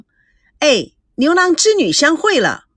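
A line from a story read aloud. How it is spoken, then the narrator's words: Shouting. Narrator (Chinese): 赵美娇喊着说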